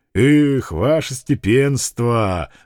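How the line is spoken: Sighing. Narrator (Russian): вздохнул мужик

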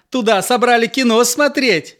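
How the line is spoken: Cheerful question. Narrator (Russian): спросила Нюра весело

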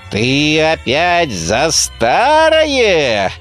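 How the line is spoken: Menacing interruption. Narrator (Russian): грозно прервал колдун

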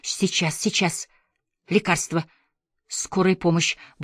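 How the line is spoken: Desperate panicked mutter. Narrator (Russian): бормотал Миха, уже догадываясь, что все поздно

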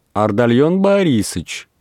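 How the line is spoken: Shouted. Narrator (Russian): крикнула Дарья

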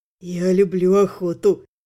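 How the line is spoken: Low voice. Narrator (Russian): произнес он низким голосом

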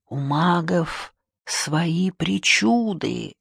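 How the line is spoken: Whisper. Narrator (Russian): шепотом сказал он

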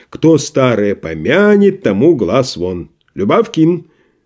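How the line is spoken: Sudden very loud shout. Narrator (Russian): вдруг крикнул он так громко, что все почтальонные посетители вздрогнули

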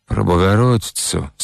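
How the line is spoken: Through gritted teeth. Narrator (Russian): сквозь зубы спросила Лодка

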